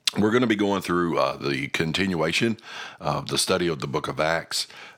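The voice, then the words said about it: Hoarse, cracking voice. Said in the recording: “still sounding worse today ... losing my voice a little bit the last couple days due to being under the weather, and there's going to be some cracking in my voice”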